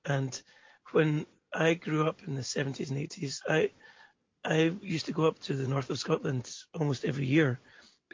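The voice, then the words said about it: Scottish accent. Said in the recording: “you can tell by my accent, I'm Scottish”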